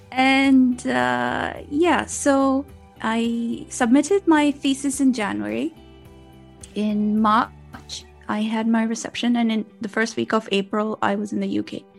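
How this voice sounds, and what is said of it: Mixed Pakistani American British accent. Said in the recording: “my funny accent, I was born and raised in Pakistan ... and I live in the UK now. So I have this Pakistani American British accent.”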